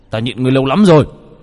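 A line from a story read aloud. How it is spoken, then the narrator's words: Roared. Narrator (Vietnamese): Đô Lương gầm lên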